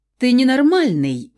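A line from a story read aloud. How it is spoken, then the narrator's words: Angry exclamation. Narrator (Russian): воскликнула я, зло глядя на заключенного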